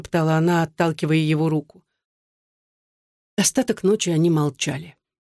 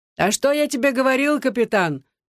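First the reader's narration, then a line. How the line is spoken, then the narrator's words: Shout. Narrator (Russian): крикнул он Александру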